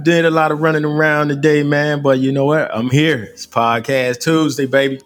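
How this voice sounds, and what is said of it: Out of breath. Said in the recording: “Out of breath.”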